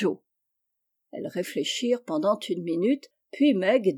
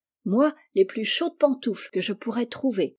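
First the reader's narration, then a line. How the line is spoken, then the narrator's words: Exclaiming. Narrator (French): s'écria Jo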